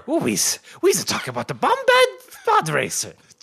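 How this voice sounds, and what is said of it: Jar Jar Binks character voice. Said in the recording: “No, Jar Jar. ... With a slightly racist accent. ... it's devolving into the Little Mario voice.”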